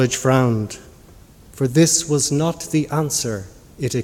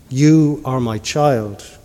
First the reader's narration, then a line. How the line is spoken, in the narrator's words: truth said